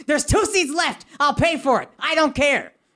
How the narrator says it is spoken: My girlfriend very helpfully uses my other ear to yell

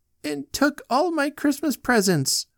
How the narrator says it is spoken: wailed Joanne

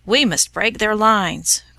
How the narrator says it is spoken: cried their leader

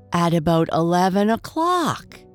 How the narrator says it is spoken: Henry cried

